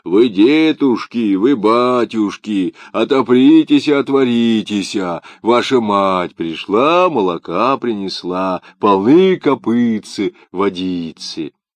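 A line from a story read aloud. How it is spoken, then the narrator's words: Shouted in thick voice. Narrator (Russian): закричал своим толстым голосом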